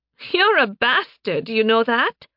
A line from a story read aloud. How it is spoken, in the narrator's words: She laughed